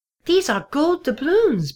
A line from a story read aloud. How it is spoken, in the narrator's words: Pipsqueak squeaked